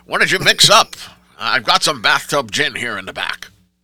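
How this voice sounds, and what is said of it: Old-time gangster voice. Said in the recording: “I'm going to talk like a Prohibition gangster, see?”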